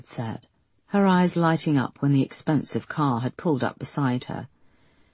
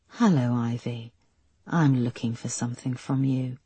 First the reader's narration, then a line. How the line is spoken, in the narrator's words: the figure had said in a smooth voice